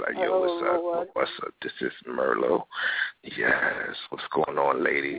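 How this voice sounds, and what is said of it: Put-on sexy, seductive voice. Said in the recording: “I'm trying to get my sexy voice on ... Sexy voice or not”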